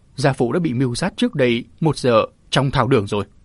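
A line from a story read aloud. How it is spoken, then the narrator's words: Choked tearful voice. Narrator (Vietnamese): Châu Hoài Anh bỗng nước mắt chảy dài, nghẹn ngào nói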